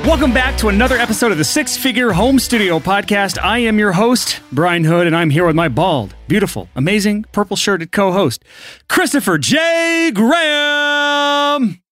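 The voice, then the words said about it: Hyped-up announcer voice. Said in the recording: “that damn announcer voice”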